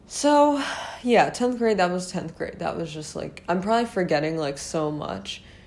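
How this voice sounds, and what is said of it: Tired, fading hoarse voice. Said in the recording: “I'm losing my voice already. ... I'm trying my best to, like, hold on to it. That's why I sound tired, because my voice is dying.”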